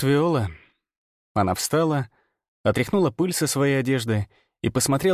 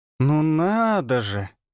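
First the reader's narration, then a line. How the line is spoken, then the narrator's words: Ungrateful drawl. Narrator (Russian): протянула она, и в ее голосе не было ни капли благодарности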